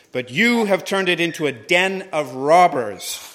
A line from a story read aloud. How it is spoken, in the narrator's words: shouted